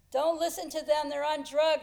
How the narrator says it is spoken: yelled through the door

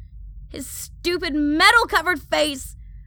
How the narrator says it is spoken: I scream at the crunch

